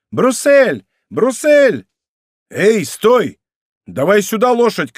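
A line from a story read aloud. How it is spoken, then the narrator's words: Shouting. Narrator (Russian): кричал ему Д'Артаньян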